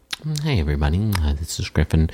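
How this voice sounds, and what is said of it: Soft NPR-style radio voice. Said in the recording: “there's soft voice... like your NPR voice?... I do get a lot of ASMR sort of reports in”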